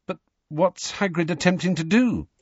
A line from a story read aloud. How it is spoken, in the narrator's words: said Harry nervously